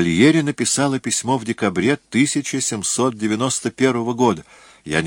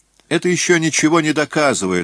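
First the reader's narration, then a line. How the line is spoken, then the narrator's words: Irritated. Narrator (Russian): раздраженно заметил Этвуд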